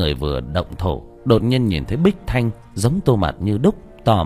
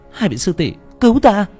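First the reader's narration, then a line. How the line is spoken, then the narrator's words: Crying out. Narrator (Vietnamese): Tô Mạt kêu lên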